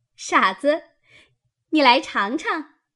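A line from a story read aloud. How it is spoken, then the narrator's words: Laughing. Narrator (Chinese): 湘云笑道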